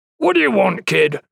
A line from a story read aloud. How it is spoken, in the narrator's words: said gruffly